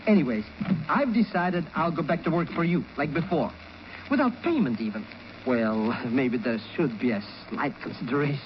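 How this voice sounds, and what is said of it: Foreign accent. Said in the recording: “can I help it if she likes my accent?”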